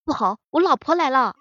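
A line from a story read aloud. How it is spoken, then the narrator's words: Sudden alarmed shout. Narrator (Chinese): 突然一个朋友喊了一声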